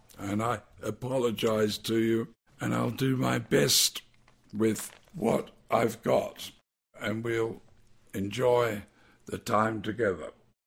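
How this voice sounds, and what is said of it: Voice in poor condition. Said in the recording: “as you can hear, my voice is not very good”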